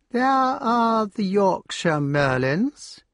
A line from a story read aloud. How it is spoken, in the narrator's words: said the honorary colonel in her slow voice at last